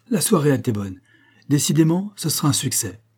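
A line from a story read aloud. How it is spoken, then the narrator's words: Exclaimed. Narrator (French): s'écria Maurice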